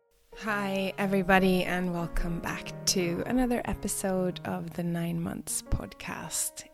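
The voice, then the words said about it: Rough, unwell-sounding voice. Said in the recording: “as you can hear, my voice isn't so great. I've been having a cold”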